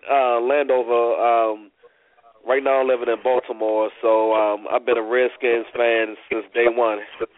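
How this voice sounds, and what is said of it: DC-area (DMV) accent. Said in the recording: “I knew you was from somewhere from the DMV. Your accent.”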